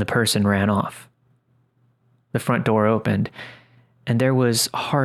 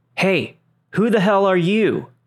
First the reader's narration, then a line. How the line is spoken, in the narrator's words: her father yell out